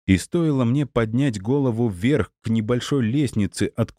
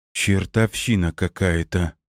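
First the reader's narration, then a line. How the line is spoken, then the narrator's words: Muttered under breath. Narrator (Russian): пробормотала себе под нос Светлана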